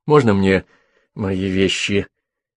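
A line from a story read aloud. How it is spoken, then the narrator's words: Timid reminder. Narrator (Russian): робко напомнил Гидон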